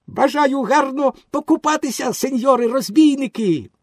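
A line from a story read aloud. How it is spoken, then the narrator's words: Joyful exclamation. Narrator (Ukrainian): Пінокіо, почувши сплески, радісно вигукнув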